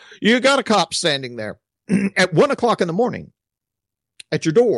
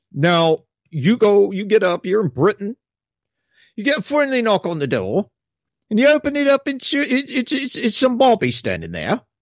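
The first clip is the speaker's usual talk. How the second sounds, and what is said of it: Put-on British accent, done badly. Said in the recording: “butchering the accent”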